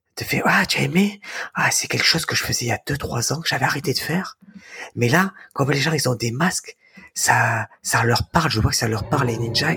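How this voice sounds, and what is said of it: Soft gentle imitation of another person. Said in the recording (French): “Je vais te faire une imitation ... c'est c'est tout doux, tu vois ... J'ai pas son énergie”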